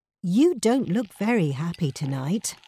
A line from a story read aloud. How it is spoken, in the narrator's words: said Perkin